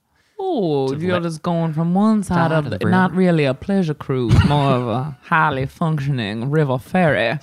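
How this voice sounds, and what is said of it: Put-on Southern Georgia accent. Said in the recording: “I don't know if that's a Kentucky accent. ... No, that's more of like a Georgia accent. ... But it sounds really good.”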